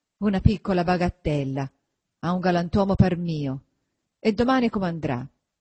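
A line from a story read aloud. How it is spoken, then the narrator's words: Grumbling. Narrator (Italian): brontolando sempre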